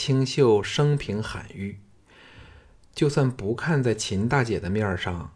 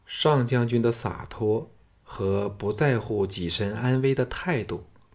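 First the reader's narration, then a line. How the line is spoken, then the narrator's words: Flat, indifferent. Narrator (Chinese): 清秀夫人淡淡的说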